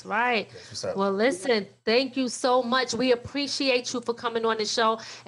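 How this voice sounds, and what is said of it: Strong New York accent. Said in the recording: “you keep that stone cold, hardcore New York accent going”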